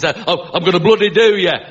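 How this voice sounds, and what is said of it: Put-on Northern English accent. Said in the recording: “Northern accents”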